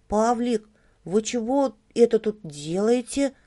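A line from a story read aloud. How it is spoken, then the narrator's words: Timid opening. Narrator (Russian): Робко заводит он разговор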